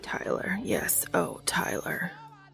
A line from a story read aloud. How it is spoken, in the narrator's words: Castiel whispers